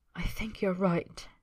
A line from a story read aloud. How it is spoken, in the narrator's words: he whispers